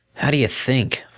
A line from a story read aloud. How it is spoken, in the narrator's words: Vinyl growled